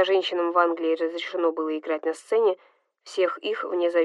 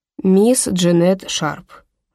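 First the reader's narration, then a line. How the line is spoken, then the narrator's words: Sighing. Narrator (Russian): вздохнул Дамиан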